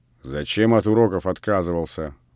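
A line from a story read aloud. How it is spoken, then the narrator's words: Grumbling. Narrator (Russian): ворчал Передонов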